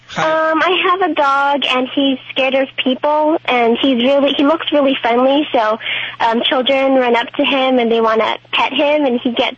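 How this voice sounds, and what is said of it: Young-sounding voice, slight Southern accent. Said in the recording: “You sound so young... I love your accent... Doesn't sound like an L.A. accent. Sounds a little bit Southern.”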